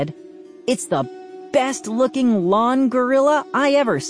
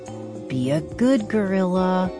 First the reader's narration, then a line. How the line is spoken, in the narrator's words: I murmured